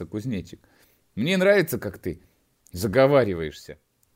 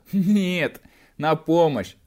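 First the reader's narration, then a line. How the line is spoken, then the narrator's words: Loud laughter. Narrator (Russian): расхохотался кузнечик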